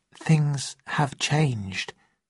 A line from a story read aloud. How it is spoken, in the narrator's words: I said quietly